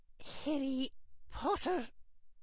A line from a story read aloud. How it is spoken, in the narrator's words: breathed Professor McGonagall